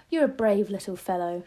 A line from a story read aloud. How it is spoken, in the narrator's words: she said